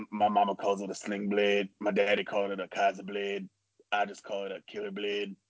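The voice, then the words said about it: Imitates a movie character's voice. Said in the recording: “my Sling Blade impression”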